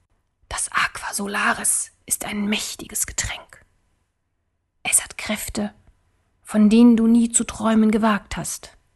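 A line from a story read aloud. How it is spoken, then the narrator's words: Whispered. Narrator (German): flüsterte Rahn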